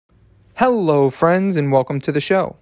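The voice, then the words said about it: Excited, energetic voice. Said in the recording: “hear the excitement in my voice?”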